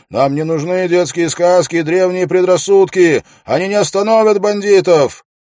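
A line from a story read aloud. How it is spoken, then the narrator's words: Unknown voice shouting. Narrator (Russian): чей-то голос крикнул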